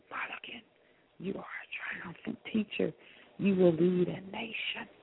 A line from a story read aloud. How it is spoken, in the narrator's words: She whispered